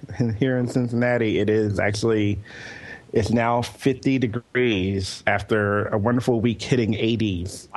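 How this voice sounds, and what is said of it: Rough, hoarse voice. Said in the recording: “hear in my voice, so it's a little, it's really bad ... your voice is kind of rough”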